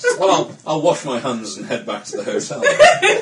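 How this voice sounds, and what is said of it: James Herriot impersonation. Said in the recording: “your necromantic James Herriot impersonation”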